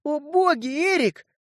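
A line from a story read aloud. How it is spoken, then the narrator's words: Sudden exclamation. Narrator (Russian): вдруг воскликнула она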